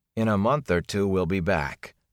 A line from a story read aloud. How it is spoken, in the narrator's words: Perrin said in a strained voice